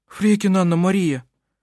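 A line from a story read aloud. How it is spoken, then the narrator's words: Agitated speech. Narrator (Russian): взволнованно проговорила Лина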